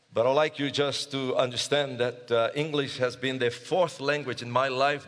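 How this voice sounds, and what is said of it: Non-native English accent. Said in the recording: “by my accent, you realize English is not my first language”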